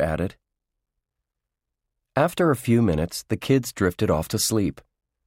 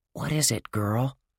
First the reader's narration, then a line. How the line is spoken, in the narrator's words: whispered